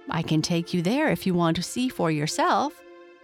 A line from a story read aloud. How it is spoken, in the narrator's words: she said